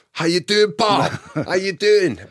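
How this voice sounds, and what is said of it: Put-on Scottish accent. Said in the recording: “a Scottish bloke ... Did you put on the accent?”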